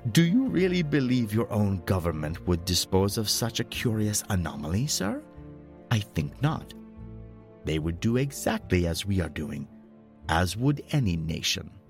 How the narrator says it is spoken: He laughed and added

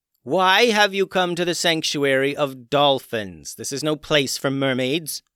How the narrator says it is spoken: yelled the queen dolphin

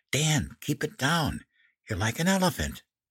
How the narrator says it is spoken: Mom stifled a giggle and whispered

